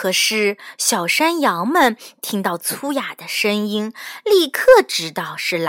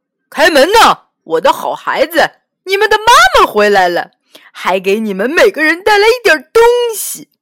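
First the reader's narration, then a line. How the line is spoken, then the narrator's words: Loud. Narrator (Chinese): 有人大声的说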